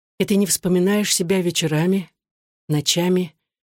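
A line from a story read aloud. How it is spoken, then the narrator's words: Soft question. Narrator (Russian): мягко спросила Татьяна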